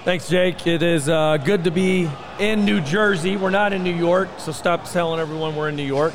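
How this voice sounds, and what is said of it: Slightly hoarse voice. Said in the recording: “tell by my voice. I'm a little hoarse.”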